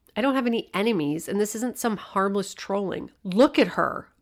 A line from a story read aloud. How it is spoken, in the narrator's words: almost screamed